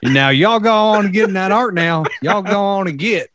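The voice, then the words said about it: Put-on hillbilly accent. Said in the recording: “hillbilly accent”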